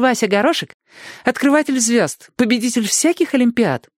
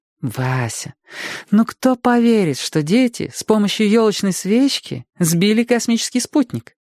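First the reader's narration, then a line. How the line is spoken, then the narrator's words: Gentle, affectionate. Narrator (Russian): ласково сказала Света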